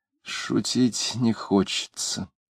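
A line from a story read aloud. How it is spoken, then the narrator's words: Quiet vague. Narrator (Russian): женщина тихо и неопределенно сказав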